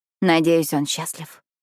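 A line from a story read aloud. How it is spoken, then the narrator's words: Mumbling. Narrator (Russian): бормочу я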